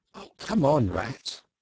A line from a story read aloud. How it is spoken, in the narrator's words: the mole waited impatiently, remarking at intervals